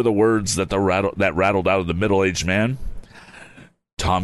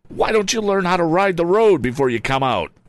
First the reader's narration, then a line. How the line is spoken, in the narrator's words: cried somewhat angrily